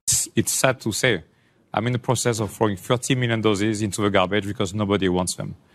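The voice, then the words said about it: Thick accent. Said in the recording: “It is a pretty thick accent.”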